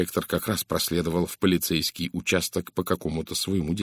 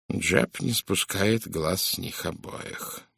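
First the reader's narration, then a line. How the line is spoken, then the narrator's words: Grim reply. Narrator (Russian): мрачно ответил Пуаро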